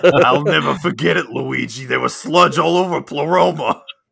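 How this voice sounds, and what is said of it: Impression of co-host's voice. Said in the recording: “that is an accurate impression of me, because it's near where I live”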